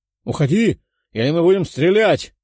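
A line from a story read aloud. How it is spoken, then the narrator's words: Shouted warning. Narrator (Russian): выкрикнул один из лучников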